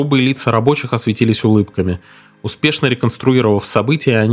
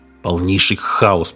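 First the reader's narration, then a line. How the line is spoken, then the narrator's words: Grumbling. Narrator (Russian): проворчал Гик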